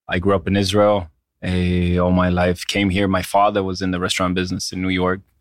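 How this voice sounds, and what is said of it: Slight foreign accent. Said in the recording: “do I notice a slight accent?”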